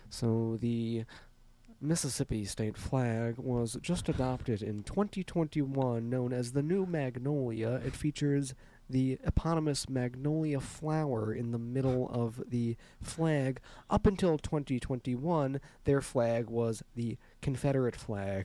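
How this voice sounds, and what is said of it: Public-radio announcer style voice. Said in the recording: “I feel like I'm on NPR right now ... my NPR voice”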